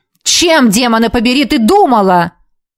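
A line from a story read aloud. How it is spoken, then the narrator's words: Barked. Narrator (Russian): рявкнул он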